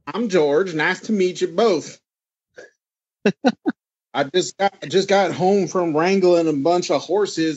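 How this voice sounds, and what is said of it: Exaggerated Texas accent. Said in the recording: “crazy like Texas accent ... That is a very authentic Texas accent”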